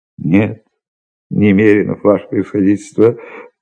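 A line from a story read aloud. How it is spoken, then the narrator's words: Guilty, sighing. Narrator (Russian): ответил Иван Евсеевич и виновато вздохнул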